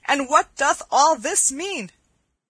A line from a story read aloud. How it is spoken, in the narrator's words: cried Will Stutely